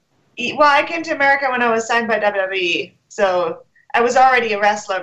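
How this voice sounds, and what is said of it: Hard-to-place mixed accent. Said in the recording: “sexy accent ... really cool like accent ... It's like a mixture of everything. Nobody can really quite place it.”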